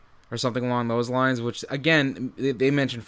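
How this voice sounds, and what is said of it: Usual voice. Nothing is said of it.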